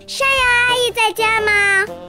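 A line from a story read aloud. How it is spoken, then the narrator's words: Shout. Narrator (Chinese): 冲着屋子大喊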